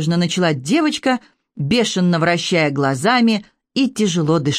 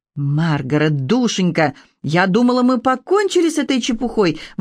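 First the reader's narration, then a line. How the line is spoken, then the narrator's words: Exclaimed. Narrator (Russian): воскликнула миссис Дэшвуд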